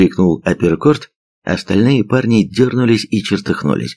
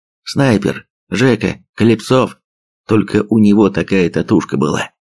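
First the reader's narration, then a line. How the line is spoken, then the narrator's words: Dejected grumble. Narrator (Russian): пробурчал Апперкорт поникшим голосом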